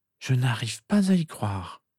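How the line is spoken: Moaning. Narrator (French): gémit-elle

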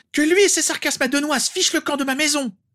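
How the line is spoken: Screamed. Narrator (French): hurla-t-elle

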